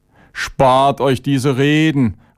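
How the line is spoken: Angry shout. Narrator (German): rief Chavenes aufbrausend

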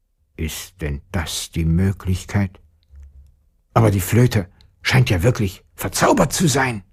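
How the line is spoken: Grumbling into beard. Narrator (German): brummte der Vater in seinen Bart

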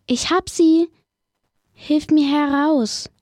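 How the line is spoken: Calling out. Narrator (German): rief er

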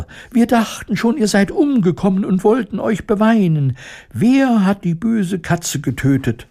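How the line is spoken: Squeaky overlapping voices. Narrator (German): piepsten sie durcheinander

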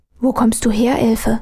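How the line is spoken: Bewildered whisper. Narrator (German): flüsterte Armele verdutzt

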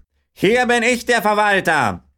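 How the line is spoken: Farmer calling out. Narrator (German): rief der Bauer

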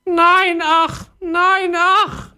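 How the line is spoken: Wailing parrot. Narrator (German): jammerte der Papagei

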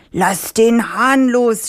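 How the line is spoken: Farmer shouting. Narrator (German): schrie der Bauer

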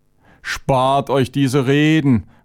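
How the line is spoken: Angry outburst. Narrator (German): rief Chavenes aufbrausend

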